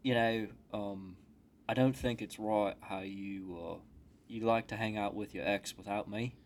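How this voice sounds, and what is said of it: Put-on Cockney British accent. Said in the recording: “why are we British again? ... you have such a Cockney accent. I love it.”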